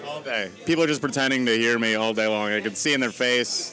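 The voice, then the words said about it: Slight accent, mumbled speech. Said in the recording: “you have a bit of an accent? ... I've been told I have an accent. I think my tongue is too big for my mouth ... My dad mumbles. My brother mumbles. The whole family mumbles. We're just mush-mouth”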